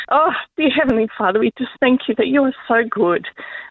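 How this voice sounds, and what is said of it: Teary, emotional praying voice. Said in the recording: “it's a bit teary, it's a bit real”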